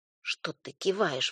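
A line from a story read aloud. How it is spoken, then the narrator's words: Sudden hiss. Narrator (Russian): вдруг зашипела Танечка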